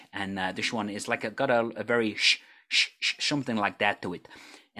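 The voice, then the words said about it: Put-on Dutch accent. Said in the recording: “I've not done it for a little while, so it may be a little not so good as it normally is... that's my Dutch accent... that is very, very good”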